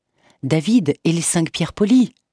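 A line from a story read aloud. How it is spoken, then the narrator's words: Exclaimed. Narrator (French): s'exclama Bruno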